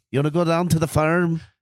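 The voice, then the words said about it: Cartoonish put-on Irish accent. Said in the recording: “do an Irish accent ... You go a little better ... But you're going like fucking cartoon character”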